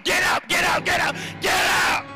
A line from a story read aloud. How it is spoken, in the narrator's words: shout